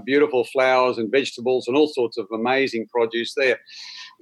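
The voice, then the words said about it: Australian accent. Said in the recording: “as you can gather by my accent, I am an Aussie”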